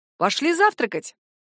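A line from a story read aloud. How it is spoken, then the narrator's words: Cheerful announcement. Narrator (Russian): Бодрым голосом провозглашает Алекс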